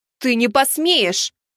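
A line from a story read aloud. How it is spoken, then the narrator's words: Shouted. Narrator (Russian): выкрикнула Лин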